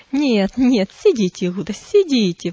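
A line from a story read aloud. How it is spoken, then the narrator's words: Exclamation. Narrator (Russian): воскликнул Мессала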